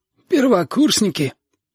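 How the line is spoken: Hoarse strained young man's voice. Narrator (Russian): спросил парень сиплым, будто сорванным голосом

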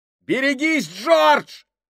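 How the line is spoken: Shout. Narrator (Russian): крикнул кто-то

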